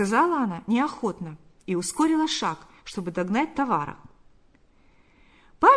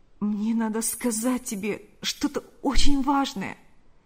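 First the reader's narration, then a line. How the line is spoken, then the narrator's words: Pleading voice. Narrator (Russian): произнес он умоляющим голосом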